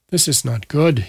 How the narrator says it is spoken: muttered

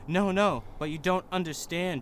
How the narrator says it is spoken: Draco pleaded

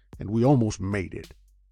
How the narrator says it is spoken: said Jerry Foster savagely

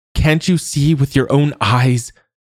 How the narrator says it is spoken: Senna now yelled

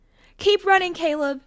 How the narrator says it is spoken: Janet screamed

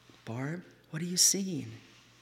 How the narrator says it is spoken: asked her softly

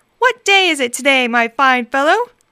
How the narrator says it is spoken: Scrooge shouted to a boy in the street

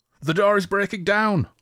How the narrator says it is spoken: Olladan yelled

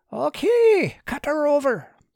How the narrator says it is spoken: Gil had to shout to be heard over the whistle of the wind and the flap of the sails

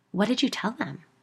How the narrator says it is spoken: asked

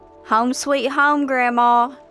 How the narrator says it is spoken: I called out of habit

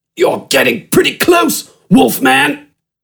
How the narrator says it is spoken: Smidgen grunted, adjusting his grip around Gafgarn's barrel chest

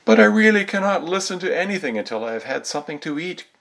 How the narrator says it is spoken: cried, getting quite angry

